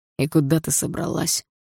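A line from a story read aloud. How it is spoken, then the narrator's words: Cold question. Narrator (Russian): холодно спросил Дима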